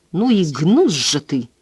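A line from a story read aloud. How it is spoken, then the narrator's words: Muttered through gritted teeth. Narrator (Russian): сквозь зубы процедил Гарп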